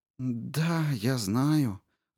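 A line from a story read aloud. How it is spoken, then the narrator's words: Sighing. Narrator (Russian): вздохнула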